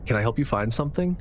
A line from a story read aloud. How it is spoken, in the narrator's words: I finally asked, forcing my voice to sound casual, though my heart was starting to pound a little faster